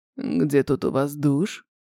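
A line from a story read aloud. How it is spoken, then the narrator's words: Hoarse quiet question. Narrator (Russian): Все еще хрипло и тихо, спрашивает Бог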